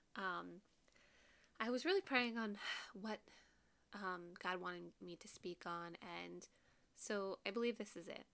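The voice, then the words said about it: Slightly nasal, congested voice. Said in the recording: “I sound a little nasally ... I've had a cold for the past few days ... I sound a little congested”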